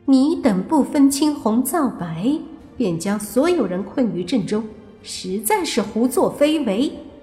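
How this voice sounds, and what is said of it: A girl's voice. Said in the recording (Chinese): “口吐女孩的声音说道”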